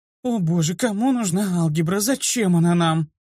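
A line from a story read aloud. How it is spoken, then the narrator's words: Whining. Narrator (Russian): захныкала планка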